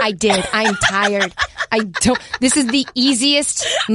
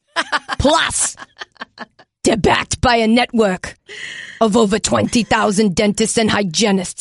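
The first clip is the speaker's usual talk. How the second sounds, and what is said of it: Imitates another person's voice. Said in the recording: “impersonation ... Everybody has an Arnold ... He has never said that sentence”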